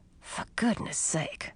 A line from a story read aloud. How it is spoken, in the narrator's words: I whispered to Millie